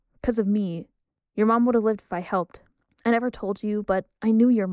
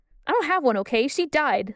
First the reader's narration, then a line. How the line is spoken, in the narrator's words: little Kyo screams